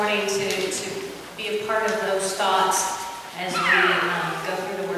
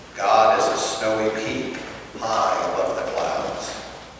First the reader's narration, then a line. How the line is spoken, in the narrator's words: Gentle as the mountain that rumbled